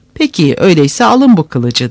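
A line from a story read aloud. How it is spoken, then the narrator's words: Plain. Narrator (Turkish): dedi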